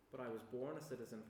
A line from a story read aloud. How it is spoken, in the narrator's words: Paul replied